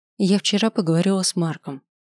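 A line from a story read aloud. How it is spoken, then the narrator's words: Even-voiced statement. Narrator (Russian): сообщая ровным голосом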